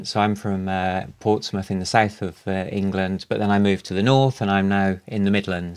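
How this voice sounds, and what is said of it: Mixed southern English accent. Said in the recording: “So we have the southern, the BBC accent. ... So it's a mix.”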